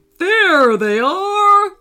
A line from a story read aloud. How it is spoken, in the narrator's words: roared the tiger